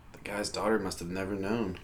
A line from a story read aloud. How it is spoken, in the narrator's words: Donnie whispered to himself